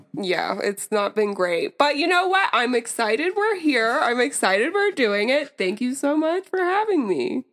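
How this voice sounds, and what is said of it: Raspy sick voice. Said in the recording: “if I have a raspy voice, it's because I'm sick... It's sexy, though. It's like a sexy rasp.”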